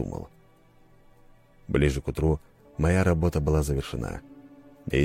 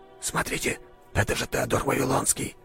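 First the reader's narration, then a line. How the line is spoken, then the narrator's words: Whispered. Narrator (Russian): прошептал кто-то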